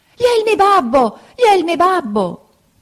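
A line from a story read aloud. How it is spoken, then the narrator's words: Piercing scream. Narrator (Italian): cacciò un urlo acutissimo, gridando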